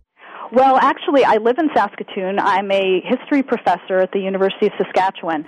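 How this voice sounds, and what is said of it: American Midwestern accent. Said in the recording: “That explains that accent.”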